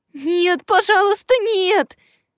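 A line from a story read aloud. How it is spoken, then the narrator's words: Thin bass pleading. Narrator (Russian): Взмолился кто-то тоненьким баском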